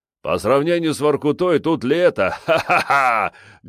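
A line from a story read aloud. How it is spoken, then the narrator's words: Loud laughter. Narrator (Russian): громко засмеялся он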